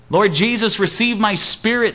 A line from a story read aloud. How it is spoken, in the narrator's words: Stephen cried